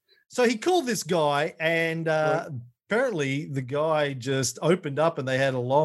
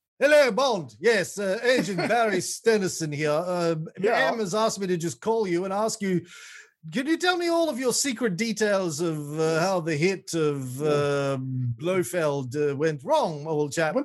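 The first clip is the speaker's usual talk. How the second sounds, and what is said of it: Put-on British accent. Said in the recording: “British accent.”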